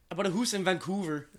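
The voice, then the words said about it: Put-on Canadian accent. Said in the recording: “my best Canadian impression”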